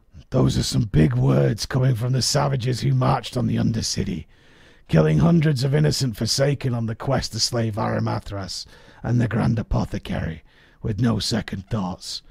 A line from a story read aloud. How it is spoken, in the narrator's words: Jeg chuckled and responded with a